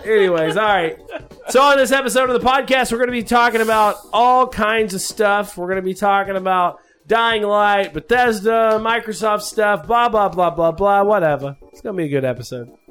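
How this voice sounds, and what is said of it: Yelling loudly into microphone. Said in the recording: “Why are you yelling into the microphone, bro?”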